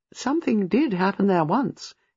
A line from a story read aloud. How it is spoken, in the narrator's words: said dryly